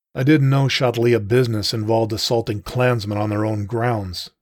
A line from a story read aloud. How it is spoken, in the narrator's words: said evenly